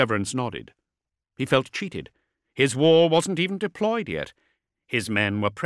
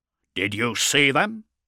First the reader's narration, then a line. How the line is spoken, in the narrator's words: he growled at Aquilinia